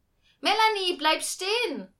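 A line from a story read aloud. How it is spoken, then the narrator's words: Mother calling out. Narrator (German): rief die Mutter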